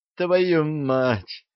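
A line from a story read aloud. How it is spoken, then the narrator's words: Groaning in pain. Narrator (Russian): простонал Арчи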